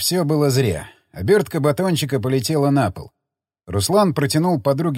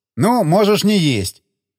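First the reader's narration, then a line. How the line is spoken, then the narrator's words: Shouted. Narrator (Russian): крикнул Махеев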